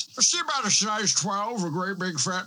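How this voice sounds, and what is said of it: Impression of Ted Levine. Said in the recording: “Can I do Ted Levine again? ... I thought I was good at Ted Levine ... Not particularly good at it ... I'm Ted Levine now”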